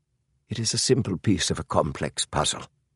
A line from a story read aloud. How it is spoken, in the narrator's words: Holmes said quietly